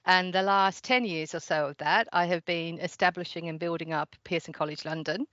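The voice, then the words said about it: Mixed Surrey and Australian accent. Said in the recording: “the accent that you're picking up is a delightful Surrey and Australian mix”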